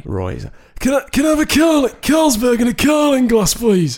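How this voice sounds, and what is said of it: Very smoky, raspy imitated voice. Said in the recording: “I'm going to do his voice for you right now. ... Very smoky like this. He didn't really... He couldn't speak probably anymore because he smoked so much and drank so much.”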